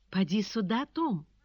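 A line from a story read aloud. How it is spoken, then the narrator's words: Trembling call. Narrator (Russian): дрожащим голосом позвала госпожа Перманедер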